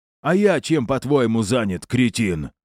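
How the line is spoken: Snapped. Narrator (Russian): огрызнулся

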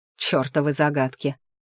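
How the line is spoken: Angry, through teeth. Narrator (Russian): зло процедил Таор

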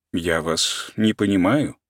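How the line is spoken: Calm objection. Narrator (Russian): спокойно возразил Каменский

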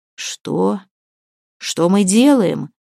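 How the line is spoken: Hoarse, strained. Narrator (Russian): хрипло выдавил Свен из горла

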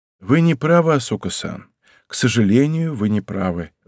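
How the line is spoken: Sighing. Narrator (Russian): вздохнул я

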